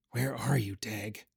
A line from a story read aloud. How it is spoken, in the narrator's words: mumbled